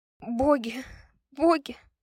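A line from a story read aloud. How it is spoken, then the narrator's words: Sobbing repetition. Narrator (Russian): всхлипывая, повторяла она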